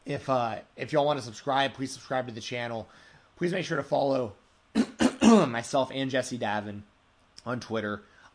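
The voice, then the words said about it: Strained, fading voice. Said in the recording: “I'm really losing my voice.”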